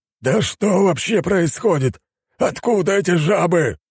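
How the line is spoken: Yelling. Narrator (Russian): орал новый командующий вторжением

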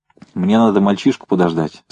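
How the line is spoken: Plain. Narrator (Russian): сказал Березкин

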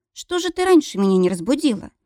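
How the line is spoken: Exclaimed. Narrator (Russian): воскликнула Ванда

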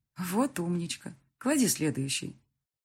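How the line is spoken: Tender, affectionate. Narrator (Russian): она так ласково говорит с девочкой

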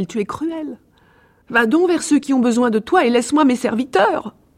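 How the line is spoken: Exclaiming. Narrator (French): s'écria-t-elle

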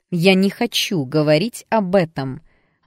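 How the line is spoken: Angry interruption. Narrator (Russian): оборвала ее мать сердито

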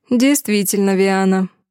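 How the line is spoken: Sarcastic snort. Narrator (Russian): саркастично хмыкнул шиариец

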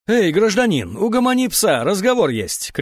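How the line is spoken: Shouted. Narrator (Russian): крикнула Мария

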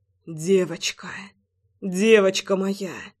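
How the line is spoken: Breathless exhale. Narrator (Russian): Выдохнул я

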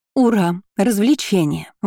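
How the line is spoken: Excited girlish exclamation. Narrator (Russian): воскликнула рыжеволосая глупышка Марлин Гримсон со второго курса

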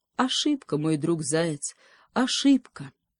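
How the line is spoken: Sighing moose. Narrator (Russian): вздохнул лось

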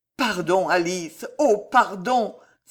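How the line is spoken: Rapturous cry. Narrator (French): s'écria-t-il dans le ravissement de son âme

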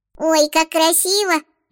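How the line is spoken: Thin squeaky voice. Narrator (Russian): пропищал тоненький голосок

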